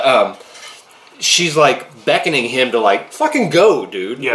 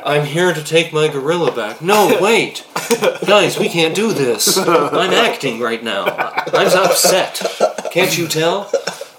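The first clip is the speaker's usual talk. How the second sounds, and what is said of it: Flat monotone imitation of an actor. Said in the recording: “Fucking monotone motherfucker”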